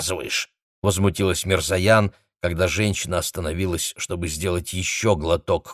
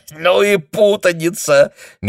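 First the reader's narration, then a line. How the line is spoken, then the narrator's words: Laughing woman. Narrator (Russian): Мирзоян смеялась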